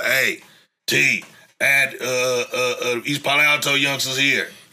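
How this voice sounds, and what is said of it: Imitates another person's voice. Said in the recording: “pretty good impression”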